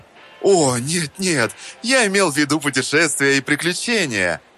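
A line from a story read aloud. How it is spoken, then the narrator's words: Chuckling. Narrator (Russian): хохотнул Пестрый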